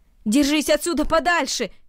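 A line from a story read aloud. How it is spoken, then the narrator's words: Shouted. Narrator (Russian): крикнул Наэль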